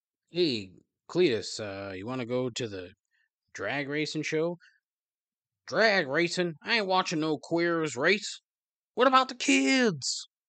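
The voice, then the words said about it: Put-on southern accent, done badly. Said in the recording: “they all have to have a southern accent. ... Oh boy, I am so bad at this.”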